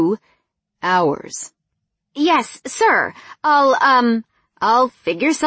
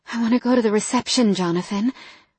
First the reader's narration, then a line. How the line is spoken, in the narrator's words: I said breathlessly